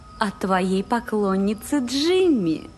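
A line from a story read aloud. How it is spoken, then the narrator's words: Cooed. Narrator (Russian): проворковала Тамра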